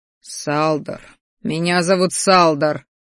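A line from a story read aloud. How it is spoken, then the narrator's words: Displeased grumble. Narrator (Russian): недовольно проворчал я, потому что Салдушка и меня называла матушка в детстве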